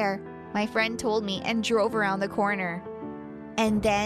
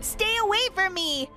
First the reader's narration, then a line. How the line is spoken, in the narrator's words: I screamed at the top of my lungs